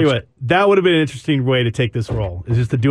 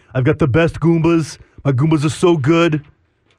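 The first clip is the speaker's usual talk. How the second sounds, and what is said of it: Imitates another person's voice. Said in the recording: “a full-on Donald Trump impersonation”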